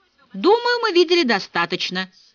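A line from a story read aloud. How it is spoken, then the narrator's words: Loud announcement. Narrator (Russian): громко возвестил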